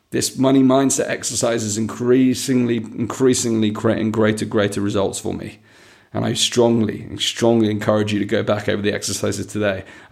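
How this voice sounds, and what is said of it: Strained, failing voice. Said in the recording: “losing my voice”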